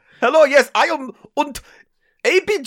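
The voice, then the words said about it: Put-on German accent. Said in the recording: “Oh, he's German, is he? Why is he German?”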